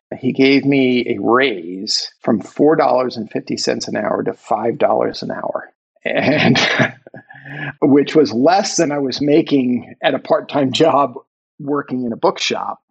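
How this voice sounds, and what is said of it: American accent. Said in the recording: “I'm an American, obviously, from my accent.”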